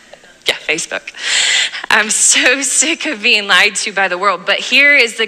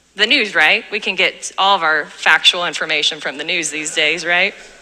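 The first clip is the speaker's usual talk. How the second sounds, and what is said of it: Sarcastic delivery. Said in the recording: “That was sarcasm”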